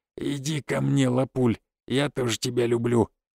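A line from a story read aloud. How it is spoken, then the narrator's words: Muttering. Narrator (Russian): тот снова начал бормотать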